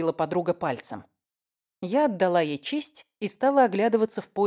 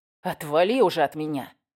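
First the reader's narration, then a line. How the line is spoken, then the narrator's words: Growl. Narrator (Russian): прорычал Уэст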